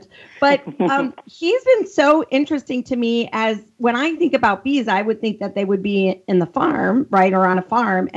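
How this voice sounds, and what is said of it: Thick Chicago Midwestern accent. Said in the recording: “I'm from the Midwest as well, Chicago, so I have that thick accent.”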